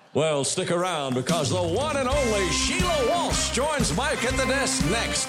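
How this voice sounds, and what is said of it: Announcer voice impression. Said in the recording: “his amazing impression of an announcer”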